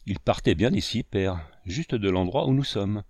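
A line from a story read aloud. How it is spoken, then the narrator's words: Boy's quavering voice. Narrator (French): répartit le gros garçon, parlant d'une voix chevrotante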